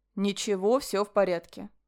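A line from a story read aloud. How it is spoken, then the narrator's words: Calm. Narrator (Russian): спокойно отозвался Ален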